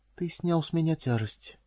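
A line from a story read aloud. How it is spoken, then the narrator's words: Whisper. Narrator (Russian): прошептала она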